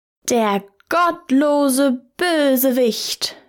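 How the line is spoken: Tailor shouting. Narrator (German): schrie der Schneider

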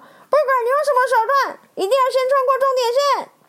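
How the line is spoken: Anxious loud shout. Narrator (Chinese): 路霸眼看着史丁杰领先地位不保，急着大喊

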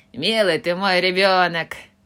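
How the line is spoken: Laughing. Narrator (Russian): засмеялась Джо

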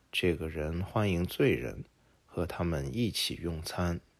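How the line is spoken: Muttered complaint. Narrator (Chinese): 法利赛人和经学家就喃喃抱怨说

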